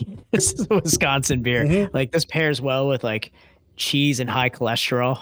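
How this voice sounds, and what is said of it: Usual voice. Nothing is said of it.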